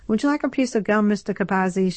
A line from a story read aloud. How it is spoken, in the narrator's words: asked brightly